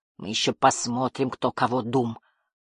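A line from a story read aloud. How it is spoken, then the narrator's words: Through gritted teeth. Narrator (Russian): процедил он и, стиснув зубы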